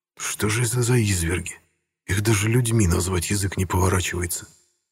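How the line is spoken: Through gritted teeth. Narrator (Russian): процедил майор

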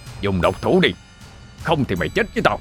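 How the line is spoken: Loud shout. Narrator (Vietnamese): Ông ta quát lớn

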